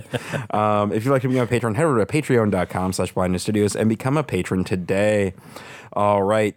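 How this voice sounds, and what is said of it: Congested, rough-sounding voice. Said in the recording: “You can hear from my voice. The allergies have been hitting me kind of hard”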